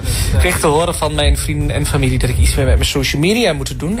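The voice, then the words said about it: Regional eastern Dutch accent. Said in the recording (Dutch): “aan dat accent snap ik meteen ... het oorste is weer gerepresent”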